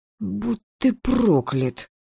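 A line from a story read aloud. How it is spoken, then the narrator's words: Whisper. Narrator (Russian): прошептала я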